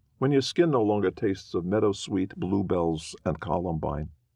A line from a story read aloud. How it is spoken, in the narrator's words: I replied